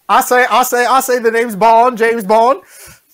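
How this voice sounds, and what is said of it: Put-on Southern drawl accent. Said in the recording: “redubbing Bond with the Knives Out accent ... We just keep doing Foghorn Leghorn ... cast Craig as a Southern”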